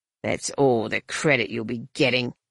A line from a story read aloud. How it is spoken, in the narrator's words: the Rurian muttered